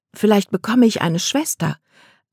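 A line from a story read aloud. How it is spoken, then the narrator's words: Plain answer. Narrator (German): antwortete Kate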